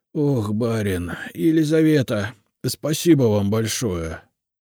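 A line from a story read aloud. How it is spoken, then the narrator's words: Relieved sigh. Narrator (Russian): С облегчением вздохнул Степан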